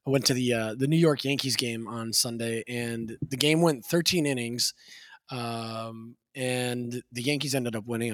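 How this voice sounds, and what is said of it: Raspy voice. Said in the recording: “my voice is a little bit raspy. This this it's it's always a little raspy”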